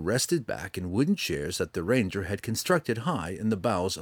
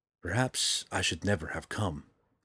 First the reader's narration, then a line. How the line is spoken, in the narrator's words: he whispered